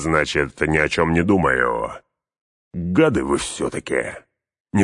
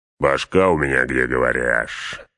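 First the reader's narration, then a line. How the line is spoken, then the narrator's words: Growl. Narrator (Russian): рыкнул Углук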